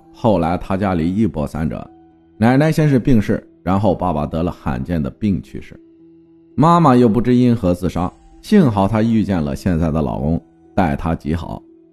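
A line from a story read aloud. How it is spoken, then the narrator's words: Light, laughing. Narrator (Chinese): 他为了缓和气氛，笑着说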